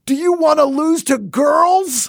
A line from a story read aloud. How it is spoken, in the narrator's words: a woman coach of a boys' team we played in sixth grade who, with the game tied 1-1, screamed